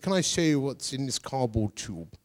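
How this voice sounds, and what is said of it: Put-on posh English accent. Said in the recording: “very posh bloke, very posh bloke. I can do a posh accent.”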